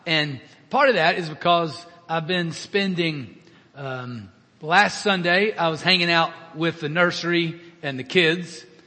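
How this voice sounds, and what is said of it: Strained, worn-out voice. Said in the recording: “my voice is a little shot”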